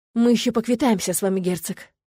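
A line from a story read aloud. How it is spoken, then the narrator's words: Prince's angry hiss. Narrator (Russian): злобно прошипел принц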